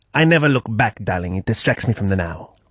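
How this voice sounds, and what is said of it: Cartoon character's accent, spot on. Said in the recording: “I'll do it in the accent of this character ... It's a cartoon character ... that sounded really specific ... Edna Mode from The Incredibles ... that's spot on”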